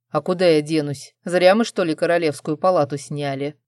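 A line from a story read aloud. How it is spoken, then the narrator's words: Wry snort. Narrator (Russian): хмыкнул Арман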